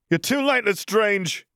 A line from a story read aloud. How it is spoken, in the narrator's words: He shouted